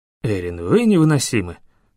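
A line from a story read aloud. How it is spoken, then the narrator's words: Rueful sigh. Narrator (Russian): сокрушенно вздохнул демон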